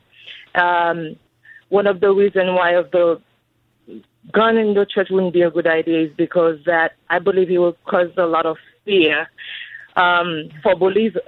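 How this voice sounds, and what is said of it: Haitian-accented English. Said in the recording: “I'm hearing an accent. ... I was born in Haiti.”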